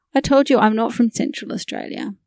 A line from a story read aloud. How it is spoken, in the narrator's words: he replied